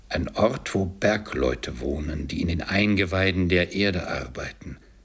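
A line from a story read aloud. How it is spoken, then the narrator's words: Plain. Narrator (German): antwortete der Geist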